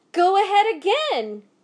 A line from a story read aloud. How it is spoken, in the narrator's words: cried Mr